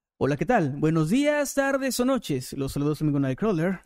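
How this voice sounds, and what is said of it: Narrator voice. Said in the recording (Spanish): “me saludan con voz de narrador”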